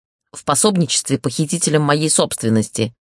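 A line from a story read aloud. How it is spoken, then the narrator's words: Irritated, curt. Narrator (Russian): раздраженно бросил лорд Бастиан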